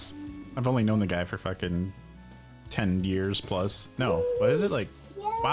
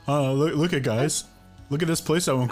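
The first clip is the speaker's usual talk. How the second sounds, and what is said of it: Imitates another person's voice. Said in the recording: “my imitation of Nick ... That was pretty good ... It was great. Seems spot on.”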